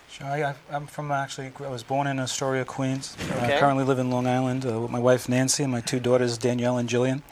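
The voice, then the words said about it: Slight New York accent. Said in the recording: “I'm noticing a slight New York accent here”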